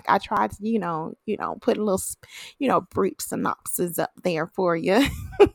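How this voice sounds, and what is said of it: Put-on country accent. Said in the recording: “Sounded real country. Trying to put a little country accent, even though I'm from the north.”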